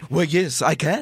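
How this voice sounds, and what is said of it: Over-the-top comic French accent. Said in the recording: “my accent was so over the top ridiculous ... It's like Pepe Le Pew.”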